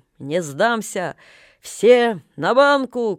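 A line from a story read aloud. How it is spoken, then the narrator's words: Cheerful shout. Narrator (Russian): крикнул он весело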